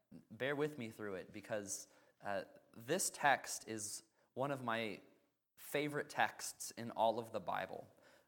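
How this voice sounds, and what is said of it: Struggling, uncooperative voice. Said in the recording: “my voice is a little less than cooperative with me this morning”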